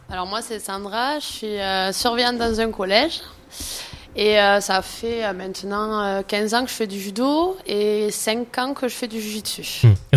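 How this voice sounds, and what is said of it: Northern French accent, hoarse voice. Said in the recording (French): “Un petit accent du nord de la France ? ... j'ai perdu ma voix à la compétition”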